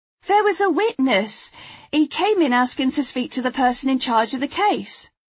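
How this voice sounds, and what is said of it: East London accent. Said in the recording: “her East London accent adding colour to her words”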